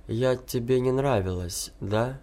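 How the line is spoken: Mechanical-voiced question. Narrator (Russian): каким-то механическим голосом спросила

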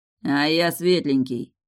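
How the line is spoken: Cold reply, werewolf language. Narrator (Russian): холодно ответил босс на языке оборотней

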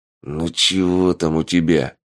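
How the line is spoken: Growled. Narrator (Russian): рыкнул Полос

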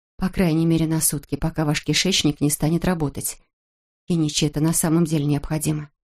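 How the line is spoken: Quiet female voice. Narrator (Russian): тихо добавила

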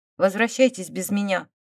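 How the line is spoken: Cold. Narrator (Russian): сказала она холодно

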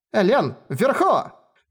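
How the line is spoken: Nearly shouting. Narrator (Russian): Фукадзира практически кричала

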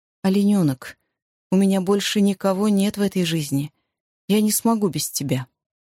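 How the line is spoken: Calm and firm. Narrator (Russian): он спокойно и твердо добавил

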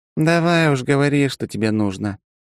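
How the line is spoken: Heavy weary sigh. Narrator (Russian): тяжело вздохнула полковник

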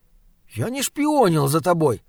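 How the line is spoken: Indignant. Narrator (Russian): сказал он возмущенно

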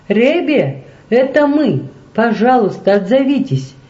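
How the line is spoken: Shouted. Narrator (Russian): крикнула

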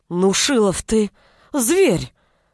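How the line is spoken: Exclamation. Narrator (Russian): воскликнула

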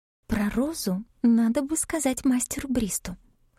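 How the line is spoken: Whisper. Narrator (Russian): шепнула она

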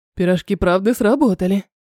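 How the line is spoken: Short laugh. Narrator (Russian): хохотнул Артем

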